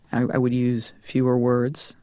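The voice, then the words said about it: Slower, deeper masculine voice. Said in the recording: “I'm slowing down the way that I'm speaking ... my voice is getting deeper. And that's, I've got that register there.”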